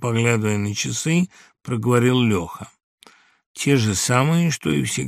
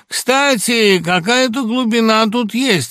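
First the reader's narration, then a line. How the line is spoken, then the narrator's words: Thoughtful but loud. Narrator (Russian): раздумчиво, но громко проговорил Синякова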